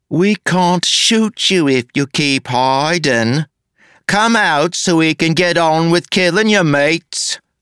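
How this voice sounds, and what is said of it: Exaggerated, overdone rough working-class accent. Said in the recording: “now that was plain awful. She was trying too hard. That wasn't a rough's accent at all. It was inner-city rough's enclave accent with a bit of upper-crust theater thrown in ... The resulting accent was ridiculous, just close enough to his natural accent that it was like rusty old spikes being pulled across a chalkboard”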